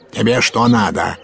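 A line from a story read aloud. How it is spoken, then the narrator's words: Barked. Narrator (Russian): гаркнул на него урядник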